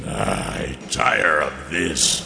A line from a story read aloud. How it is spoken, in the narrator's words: growled